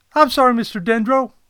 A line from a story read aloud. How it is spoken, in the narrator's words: Codit replied